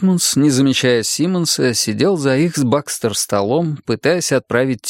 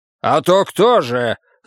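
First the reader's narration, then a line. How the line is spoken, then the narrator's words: Angry, curt. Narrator (Russian): зло бросил Симмонс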